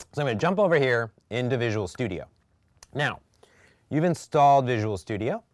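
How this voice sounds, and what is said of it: Strained, hoarse voice. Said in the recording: “Losing my voice,”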